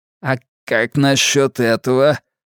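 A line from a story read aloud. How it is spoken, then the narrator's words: Grumbling. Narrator (Russian): пробурчал Карри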